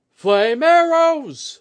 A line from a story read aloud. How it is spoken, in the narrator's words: thundered a voice further down the parapets, practice from shouting across the din of battle